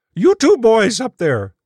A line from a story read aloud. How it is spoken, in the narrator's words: she shouted